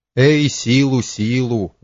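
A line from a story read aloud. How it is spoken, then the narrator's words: Sighing. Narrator (Russian): вздохнул государь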